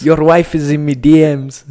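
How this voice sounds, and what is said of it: Attempted accent impression. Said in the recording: “I have to really try. We need to go to a class where we do accent impersonations.”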